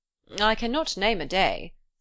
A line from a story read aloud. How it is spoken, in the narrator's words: said he